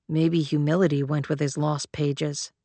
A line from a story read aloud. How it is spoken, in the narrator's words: Leto muttered